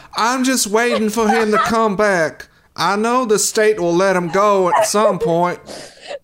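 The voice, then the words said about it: Put-on accent of a character type. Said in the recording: “You sound like, you know, those ladies who write notes to death row inmates? ... I don't know why they have that accent”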